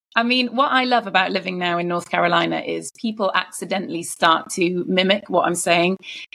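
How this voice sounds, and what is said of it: British accent. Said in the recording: “bring a bit of British ... so quintessential British ... with a British accent”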